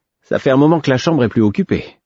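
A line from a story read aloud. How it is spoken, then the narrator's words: Cheerful. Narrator (French): observa-t-il d'un ton enjoué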